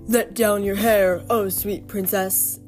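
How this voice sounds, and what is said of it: Deep sing-song voice. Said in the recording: “a deep voice ... the voice said in a sing-song manner”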